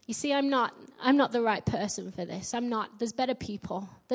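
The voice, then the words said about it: Yorkshire English accent. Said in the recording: “I get mocked for my Yorkshire accent everywhere”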